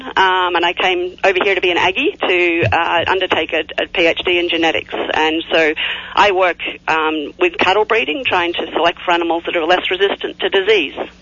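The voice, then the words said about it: Australian accent. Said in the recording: “my accent I'm originally Australian.”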